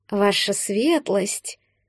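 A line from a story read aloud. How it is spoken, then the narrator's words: Snakelike hissing voices. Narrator (Russian): Голоса напоминали шипение змей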